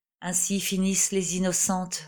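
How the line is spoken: Sentimental murmur. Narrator (French): murmura le capitaine, qui avait ce jour-là l'esprit tourné aux réflexions sentimentales

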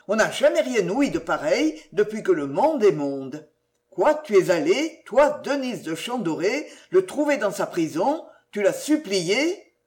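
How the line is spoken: Exclaimed. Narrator (French): s'écria-t-il

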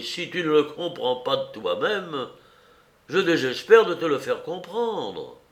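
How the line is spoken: Exclaimed. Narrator (French): s'écria Maurice

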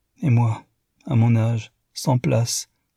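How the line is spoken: Sighing. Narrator (French): soupira Mrs

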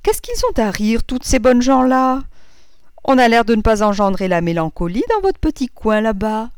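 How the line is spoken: Exclaimed. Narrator (French): s'écria Madame Verdurin

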